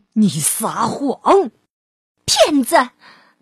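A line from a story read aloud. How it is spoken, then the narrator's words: Angry outburst. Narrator (Chinese): 他的朋友们在愤怒中爆发了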